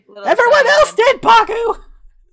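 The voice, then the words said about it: Yelling. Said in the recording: “Don't yell at me. ... I'm sorry for yelling at you.”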